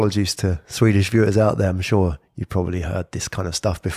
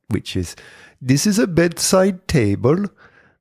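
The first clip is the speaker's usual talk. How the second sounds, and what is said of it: Put-on Swedish accent. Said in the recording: “it's done as in a Swedish accent ... That's my best Swedish accent.”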